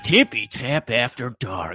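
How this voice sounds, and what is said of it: Sultry pillow-talk voice. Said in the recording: “That's a very sexy voice you got ... an attempt at pillow talk”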